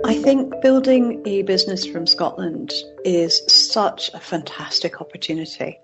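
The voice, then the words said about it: Mild mixed Scottish-Canadian accent. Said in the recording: “my accent might not be as strong as it would be if I had went to school here. I did go to Canada when I was 2, so I have a kind of mixed accent, but people can still hear when I'm talking in another country that I'm Scottish”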